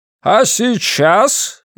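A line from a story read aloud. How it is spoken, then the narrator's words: Shouting over loud noise. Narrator (Russian): не сказал, а прокричал директор, ибо шум стоял оглушительный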